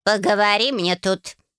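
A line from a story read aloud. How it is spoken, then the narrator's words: Menacing. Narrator (Russian): грозно произнесла она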